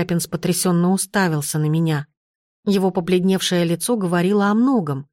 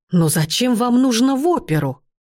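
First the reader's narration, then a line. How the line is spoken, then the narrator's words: Exclaiming. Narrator (Russian): воскликнул он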